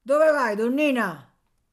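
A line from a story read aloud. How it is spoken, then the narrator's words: Big man shouting. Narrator (Italian): l'omone, che pareva ridesse continuamente perché aveva le guance gonfie, gridò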